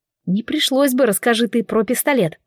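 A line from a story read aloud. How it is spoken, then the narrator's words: Silent inner grumble. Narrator (Russian): проворчала мысленно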